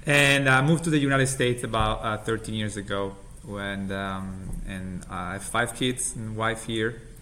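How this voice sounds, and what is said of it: Italian accent. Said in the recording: “as you can get from my accent, I'm originally from Italy.”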